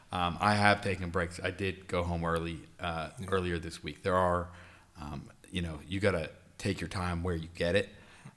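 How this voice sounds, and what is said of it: Slightly raspy voice. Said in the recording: “I was feeling sick. I'm getting over it. That's why you probably hear me a little raspy.”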